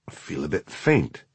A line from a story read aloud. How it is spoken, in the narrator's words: he mumbled